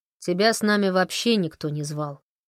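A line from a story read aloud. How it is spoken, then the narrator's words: Grumbled. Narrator (Russian): проворчал Фрэнк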